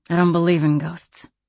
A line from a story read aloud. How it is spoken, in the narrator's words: she said tightly